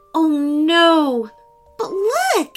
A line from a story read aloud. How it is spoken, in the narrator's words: Stella cried